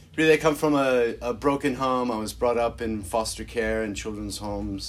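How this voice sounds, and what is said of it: American accent. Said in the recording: “as you probably tell from my accent, I come originally from America.”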